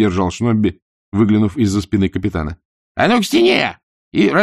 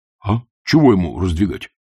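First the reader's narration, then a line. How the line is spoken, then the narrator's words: Frightened whisper. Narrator (Russian): испуганно шепнул сержант Колон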